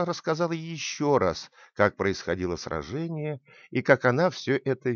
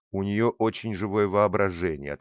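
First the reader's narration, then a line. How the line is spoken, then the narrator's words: Plain. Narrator (Russian): ответила мама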